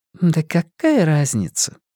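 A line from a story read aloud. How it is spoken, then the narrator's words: Sighing. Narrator (Russian): вздохнула Люми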